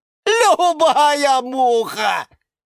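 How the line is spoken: Full-throated yell. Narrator (Russian): завопил Венерина мухоловка Жорж во всю свою зубастую глотку

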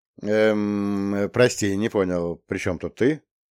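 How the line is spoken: Casual, haughty tone. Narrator (Russian): Я старался говорить слегка небрежным, высокомерным тоном

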